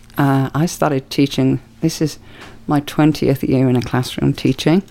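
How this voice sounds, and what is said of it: British accent. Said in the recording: “I'm not from the USA. Kind of funny talking. Funny old accent going on. So, originally from the UK”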